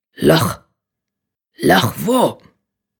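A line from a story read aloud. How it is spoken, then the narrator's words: Growled. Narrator (German): knurrte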